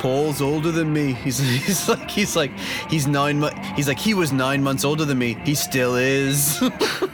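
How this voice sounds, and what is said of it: Bad impression with Liverpudlian accent. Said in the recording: “my George Harrison impression ... I can't do it at all ... It's just a bad impression ... it just sounds like a British accent ... it's a Liverpudlian accent”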